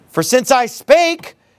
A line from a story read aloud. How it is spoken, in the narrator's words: I cried out